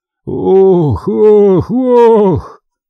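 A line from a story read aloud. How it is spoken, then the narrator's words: Muffled pained repetition. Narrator (Russian): Другой, зажав разбитое лицо, глухо повторял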